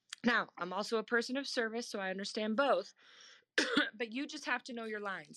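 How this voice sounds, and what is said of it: Rough, strained voice. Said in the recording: “my voice sounds so bad, y'all. ... it's rough today.”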